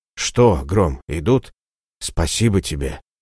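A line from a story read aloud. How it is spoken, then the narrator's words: Whisper. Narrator (Russian): прошептал Ратибор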